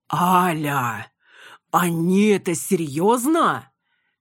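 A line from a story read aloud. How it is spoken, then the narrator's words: Groaning. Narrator (Russian): Я застонала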